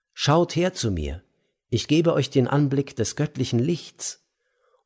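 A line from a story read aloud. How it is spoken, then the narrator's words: Calling out to all. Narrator (German): rief allen zu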